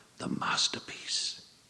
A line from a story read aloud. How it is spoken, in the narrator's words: hissed, not quietly enough